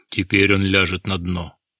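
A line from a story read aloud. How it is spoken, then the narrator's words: Sighing. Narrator (Russian): вздохнул Рязунов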